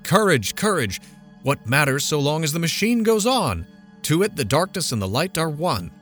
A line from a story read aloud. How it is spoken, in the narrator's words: heroic the tone of the lecturer as he cried